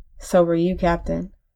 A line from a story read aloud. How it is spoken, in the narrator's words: said quietly